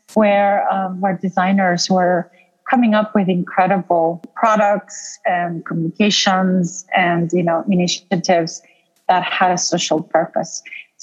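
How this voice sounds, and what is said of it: Sophisticated transatlantic mixed accent. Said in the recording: “a sophisticated transatlantic dialect in your accent, European, South American, and obviously North American”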